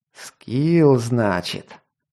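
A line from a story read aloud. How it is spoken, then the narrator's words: Through gritted teeth. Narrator (Russian): процедил он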